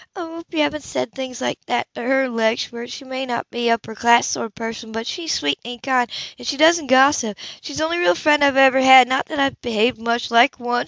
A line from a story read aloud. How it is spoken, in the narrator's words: she added sadly